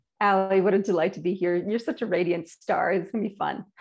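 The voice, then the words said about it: Canadian accent. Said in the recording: “first thing you're going to hear is my accent. Apparently I have one, and I'm imported from Canada”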